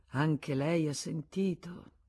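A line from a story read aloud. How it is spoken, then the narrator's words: With a deep sigh. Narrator (Italian): disse Arnoux mandando un gran sospiro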